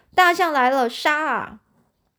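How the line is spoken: Loud battle cry. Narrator (Chinese): 魁梧身躯，大声叫叫喊

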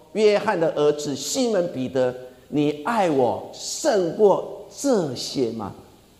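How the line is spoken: Plain question. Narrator (Chinese): 耶稣在问彼得

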